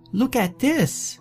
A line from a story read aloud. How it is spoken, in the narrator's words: she shrieked